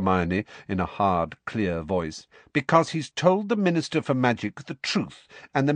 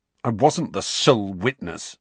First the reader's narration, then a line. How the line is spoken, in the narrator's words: snarled Harry